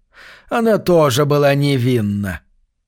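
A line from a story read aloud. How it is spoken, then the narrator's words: Plain. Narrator (Russian): сказал адвокат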